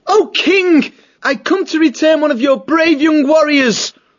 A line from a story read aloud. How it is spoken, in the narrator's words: Matthias, realizing that this was no time for idle chit-chat, promptly shouted out in loud courtly manner